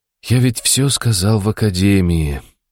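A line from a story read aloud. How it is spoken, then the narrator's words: Resigned exhale. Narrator (Russian): обреченно выдохнул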